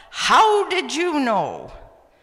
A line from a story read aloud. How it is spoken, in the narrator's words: I yelled